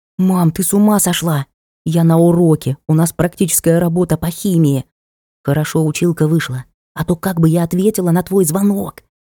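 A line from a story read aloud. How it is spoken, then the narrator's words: Indignant whisper. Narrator (Russian): Возмущенно зашептала мне в ухо дочь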